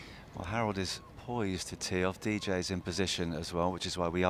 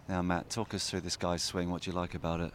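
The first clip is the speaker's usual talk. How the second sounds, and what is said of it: Whispering. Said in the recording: “we are going to start whispering again”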